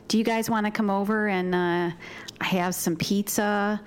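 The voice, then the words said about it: Upstate New York, Midwestern-style accent. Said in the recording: “do my upstate New York accent ... It's basically the Midwest”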